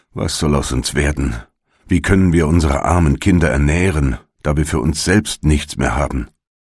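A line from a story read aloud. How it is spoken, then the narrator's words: Worried sigh. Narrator (German): seufzte er und sprach zu seiner Frau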